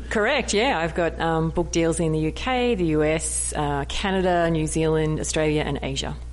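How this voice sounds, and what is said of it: Australian accent. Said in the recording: “you can't beat the Australian accent”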